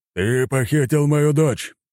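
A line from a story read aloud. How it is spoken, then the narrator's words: Booming voice. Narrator (Russian): прогремел Нахимов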